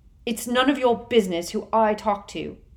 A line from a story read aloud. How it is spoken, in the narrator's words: he snarled